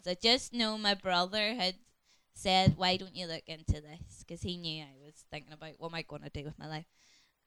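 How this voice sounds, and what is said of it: Northern Irish Ballymena accent. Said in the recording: “This is a Ballymena accent.”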